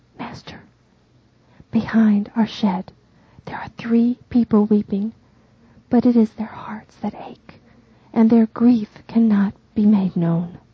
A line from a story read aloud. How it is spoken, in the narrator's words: Andrew whispers